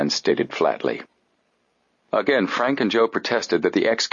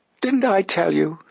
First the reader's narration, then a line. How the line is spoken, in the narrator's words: she cried